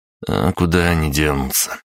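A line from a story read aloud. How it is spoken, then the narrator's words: Joyless snort. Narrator (Russian): невесело хмыкнул я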